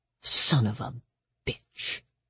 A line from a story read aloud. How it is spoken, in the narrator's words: she muttered